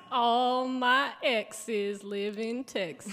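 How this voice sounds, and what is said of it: Put-on Southern drawl. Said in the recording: “I'm getting a real workout on my southern drawl here”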